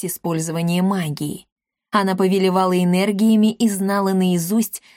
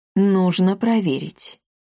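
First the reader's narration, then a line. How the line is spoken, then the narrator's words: Gloomy pronouncement. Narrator (Russian): мрачно изрек Рашид Толедо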